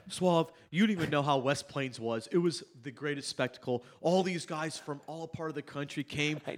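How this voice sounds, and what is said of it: Impression of the host's speaking style. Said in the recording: “does an impression of me talking about West Plains”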